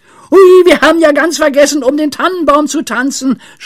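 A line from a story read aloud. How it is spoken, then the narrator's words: Suddenly shouted. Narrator (German): schrie Pippi plötzlich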